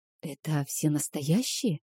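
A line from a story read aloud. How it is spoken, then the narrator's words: Quiet question. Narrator (Russian): спросила тихо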